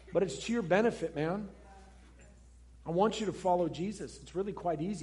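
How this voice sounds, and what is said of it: Loud, emphatic preaching voice. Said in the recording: “gosh, this guy's loud ... I'm just emphatic”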